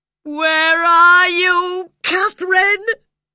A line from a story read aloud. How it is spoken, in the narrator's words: he cried in despair